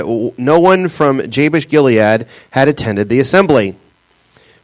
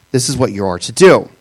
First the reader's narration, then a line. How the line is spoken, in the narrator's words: they said